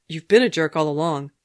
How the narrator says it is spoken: Steve snapped

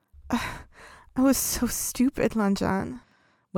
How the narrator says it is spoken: Wei Ying groaned, looking truly miserable

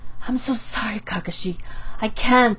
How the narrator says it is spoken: Aruka said, very breathlessly

